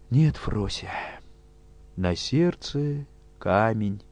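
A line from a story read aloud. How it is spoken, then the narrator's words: Sad complaint. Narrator (Russian): грустно пожаловалась Фрося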